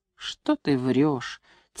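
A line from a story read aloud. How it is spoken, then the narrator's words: Quiet but angry. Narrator (Russian): тихо, но сердито сказал вихирь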